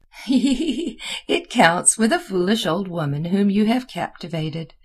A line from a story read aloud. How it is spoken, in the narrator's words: replied Mademoiselle with her wriggling laugh